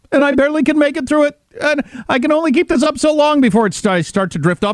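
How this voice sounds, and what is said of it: Fake on-the-verge-of-tears voice. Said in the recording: “I can't take any more of her pretending to cry ... I'm doing this voice to let you know that I'm super upset about this ... I'm trying to pretend I'm not about to cry”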